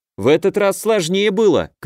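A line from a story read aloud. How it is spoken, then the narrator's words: Boy shouting. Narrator (Russian): крикнул 13-летний я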